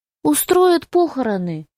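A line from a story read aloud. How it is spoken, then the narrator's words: Sad. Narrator (Russian): печально ответила Констанция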